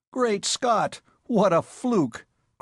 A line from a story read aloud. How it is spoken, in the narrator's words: cried the Silent One, becoming quite garrulous at the miracle